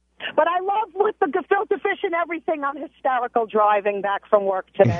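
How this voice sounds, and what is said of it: Strong Brooklyn accent. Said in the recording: “I grew up in Brooklyn. Obviously, my accent is still from there ... You're worse than me”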